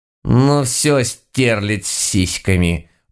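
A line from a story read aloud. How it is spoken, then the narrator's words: Old witch growling. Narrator (Russian): прорычала Баба-Яга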